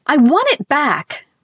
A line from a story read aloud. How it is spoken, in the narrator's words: Ruth wailed furiously